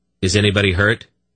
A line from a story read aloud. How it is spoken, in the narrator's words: Geryon demanded